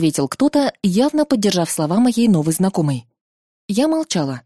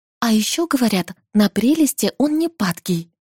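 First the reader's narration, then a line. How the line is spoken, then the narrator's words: Whispered behind back. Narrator (Russian): уже шепотом за спиной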